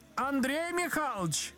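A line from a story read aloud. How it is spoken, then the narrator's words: Woman shouting from room. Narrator (Russian): закричал женский голос из комнаты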